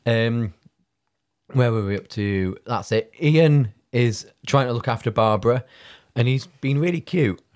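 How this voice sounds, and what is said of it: Hoarse, strained voice. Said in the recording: “pardon me, I'm losing my voice.”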